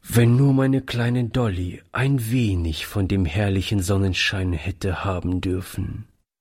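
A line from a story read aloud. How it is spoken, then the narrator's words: Sad. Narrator (German): fügte er traurig hinzu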